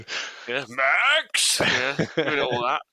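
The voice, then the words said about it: Shouted imitation of a toddler. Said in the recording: “she keeps going, Max! Shouting the dog's name ... That's a very good impression.”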